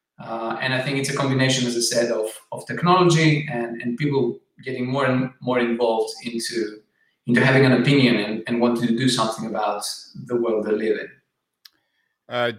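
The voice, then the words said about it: Greek accent. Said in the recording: “as many people can guess, perhaps from your accent or certainly from your name, you're Greek”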